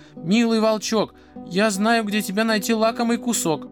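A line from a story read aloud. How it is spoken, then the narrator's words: Muffled shout from belly. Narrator (Russian): закричал волку из брюха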